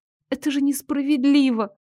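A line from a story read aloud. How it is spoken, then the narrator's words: Nearly silent sob. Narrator (Russian): почти беззвучно всхлипнула я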